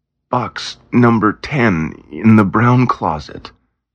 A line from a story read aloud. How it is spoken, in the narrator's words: sales clerk groaned